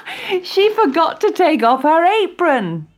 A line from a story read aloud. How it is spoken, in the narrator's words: they laughed